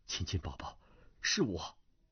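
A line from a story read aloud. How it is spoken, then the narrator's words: Low voice. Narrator (Chinese): 段正淳低声道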